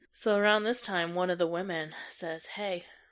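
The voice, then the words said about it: Sultry, seductive bedroom voice. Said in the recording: “sexy voice? ... It's her bedtime voice. ... bedroom voice.”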